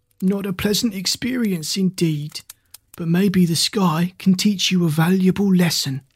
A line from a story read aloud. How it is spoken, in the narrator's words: said the old man, speaking in a slow, hoarse voice